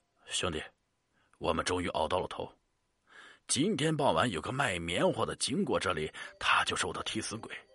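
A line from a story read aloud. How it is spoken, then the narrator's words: Man's voice from underwater. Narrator (Chinese): 水下一个男人的声音飘过来，说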